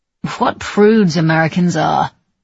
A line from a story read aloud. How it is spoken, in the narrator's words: she chuckled